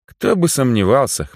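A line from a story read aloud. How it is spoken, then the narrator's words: Amused snort. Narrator (Russian): хмыкнул я в ответ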